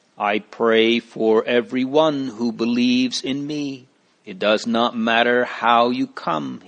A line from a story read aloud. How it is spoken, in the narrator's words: said